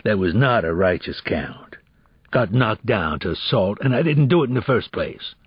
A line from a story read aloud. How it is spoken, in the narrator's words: He said firmly